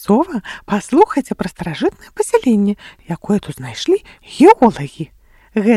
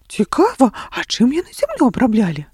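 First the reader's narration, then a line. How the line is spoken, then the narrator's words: Surprised question from cat. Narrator (Belarusian): спытаў здзіўленым голасам паўнашчукі ў бялюткі футры і з доўгімі вусамі каток Май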